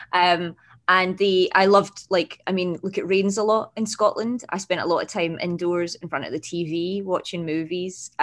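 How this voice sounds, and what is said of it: Scottish Glasgow accent. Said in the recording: “I grew up in Glasgow in Scotland, as my accent, my very subtle accent might give away”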